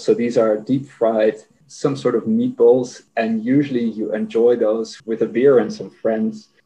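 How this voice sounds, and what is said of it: Dutch accent. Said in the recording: “maybe my accent already gave it away, but I got Dutch roots”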